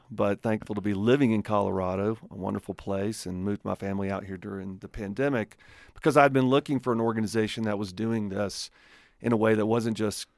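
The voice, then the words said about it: Southern Alabama accent. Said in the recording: “you recognize the redneck accent probably is not from Colorado. I am from Alabama”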